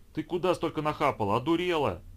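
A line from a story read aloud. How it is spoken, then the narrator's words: Exclaimed. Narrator (Russian): воскликнул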